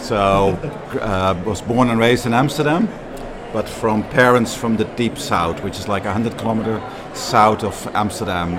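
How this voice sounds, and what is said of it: Dutch accent. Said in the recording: “you have an accent? ... I'm Dutch, very Dutch.”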